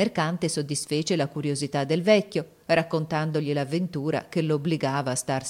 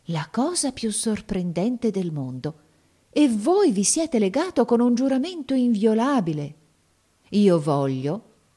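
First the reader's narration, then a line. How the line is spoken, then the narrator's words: Exclaiming. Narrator (Italian): esclamò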